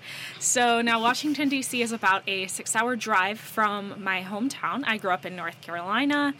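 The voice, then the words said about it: American accent. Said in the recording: “As you guys can probably hear by my accent, I am American.”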